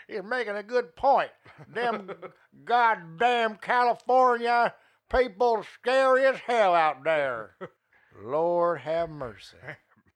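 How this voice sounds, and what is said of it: Southern guy impression. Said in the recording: “That was a southern guy that hated California. That was an impression I just did”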